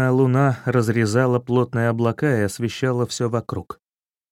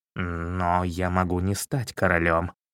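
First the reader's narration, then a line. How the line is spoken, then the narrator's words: Mumble. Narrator (Russian): пробормотал Чернохвост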